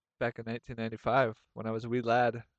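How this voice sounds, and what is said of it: Put-on Irish accent. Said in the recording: “Are you speaking with an Irish accent?”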